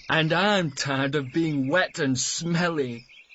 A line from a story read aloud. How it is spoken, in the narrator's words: laughed Matt